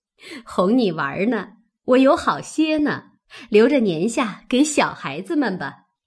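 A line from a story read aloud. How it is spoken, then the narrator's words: Laughing, teasing. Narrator (Chinese): 鸳鸯见他信以为真，笑着……说道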